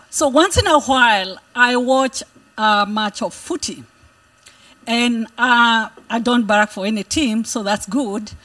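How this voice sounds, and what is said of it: Speaks with a distinctive accent. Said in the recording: “I have a unique accent.”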